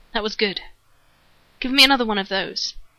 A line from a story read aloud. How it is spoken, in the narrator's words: Shepard said